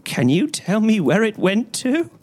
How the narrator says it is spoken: he cried

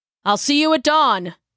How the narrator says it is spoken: he hollered after her

